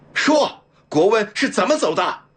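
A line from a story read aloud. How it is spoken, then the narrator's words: Angry roar. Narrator (Chinese): 梁先生黑着脸吼道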